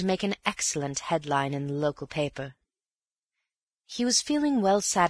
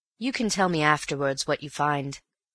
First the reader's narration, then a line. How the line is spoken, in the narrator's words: he said